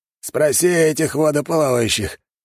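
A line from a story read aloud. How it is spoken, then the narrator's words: Groaning. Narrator (Russian): простонал он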